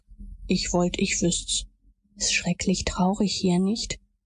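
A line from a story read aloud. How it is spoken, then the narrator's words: Whispered reply. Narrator (German): Huckleberry gab flüsternd zurück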